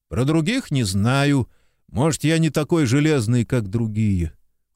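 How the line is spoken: Glum, dejected. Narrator (Russian): уныло проговорил Некрасов

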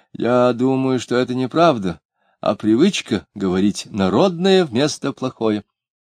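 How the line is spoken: Timid reply. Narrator (Russian): Спивак робко ответил

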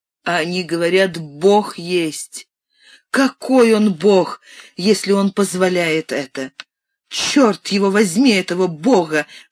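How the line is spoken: Screaming, sobbing, hysterical laughter. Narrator (Russian): кричала она, то рыдая, то закатываясь истерическим хохотом

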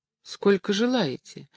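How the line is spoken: Embarrassed. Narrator (Russian): смущенным голосом спросил шарманщик

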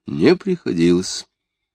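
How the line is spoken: Dry father. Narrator (Russian): Отец сухо

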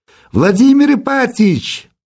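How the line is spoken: Shouting from street through window. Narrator (Russian): прокричал голос в открытое окно кабинета с улицы Герцена

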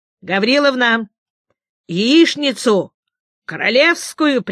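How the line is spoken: Loud cheerful command. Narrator (Russian): приказал Павел Алексеевич громким веселым голосом

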